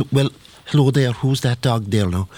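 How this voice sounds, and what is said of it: Put-on Cork Irish accent. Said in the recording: “down in Cork like you have to speak different ... when I'm down there like I can't be speaking like here in Dublin I can use a Dublin accent, but down in Cork like I have to speak like”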